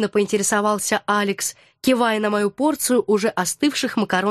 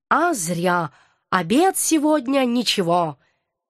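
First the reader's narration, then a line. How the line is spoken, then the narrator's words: Satiated, well-fed voice. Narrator (Russian): сытым голосом изрек кот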